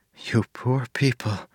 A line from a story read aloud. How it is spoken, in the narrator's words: Marcy whispered